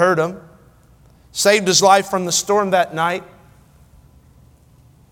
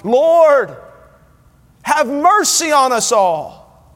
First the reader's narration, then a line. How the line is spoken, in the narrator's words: he cried loudly